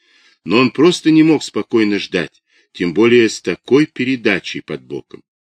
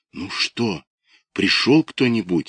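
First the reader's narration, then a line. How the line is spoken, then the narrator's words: Whisper. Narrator (Russian): зашептала она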